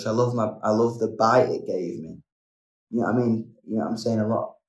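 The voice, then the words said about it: Strong English accent. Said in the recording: “I am very English... I think a lot of people can hear me a mile off... I think my accent's definitely become part of my brand”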